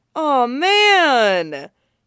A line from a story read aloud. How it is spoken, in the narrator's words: Johnny cries